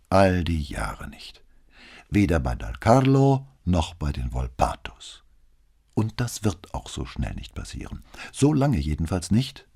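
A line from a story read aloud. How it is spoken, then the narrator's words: Calm. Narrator (German): sagte Brunetti ruhig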